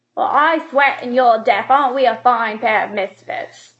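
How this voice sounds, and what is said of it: Cate Blanchett imitating Katherine Hepburn. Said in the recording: “I'm going to do an impression of Cate Blanchett doing an impression of Katherine Hepburn.”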